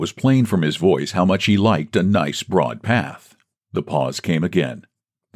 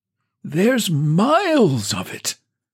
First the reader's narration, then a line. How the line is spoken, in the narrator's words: quavered old Woodfield